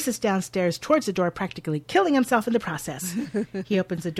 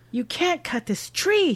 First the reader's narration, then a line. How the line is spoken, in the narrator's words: he gasps